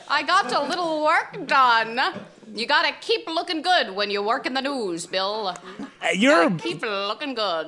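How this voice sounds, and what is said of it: Wavering old-timey put-on accent. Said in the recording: “Your old-timey accent just keeps going back and forth. Sometimes it's a little Canadian. Sometimes it just sounds like you are a woman.”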